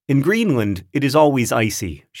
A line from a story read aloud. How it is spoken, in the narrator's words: she said